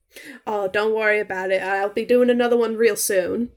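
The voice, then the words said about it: New Jersey accent sliding into Southern. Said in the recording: “Is that the accent? I thought it was a Southern earlier ... kind of like a Linda Belcher, New Jersey kind of thing, but it just kind of slides into Southern”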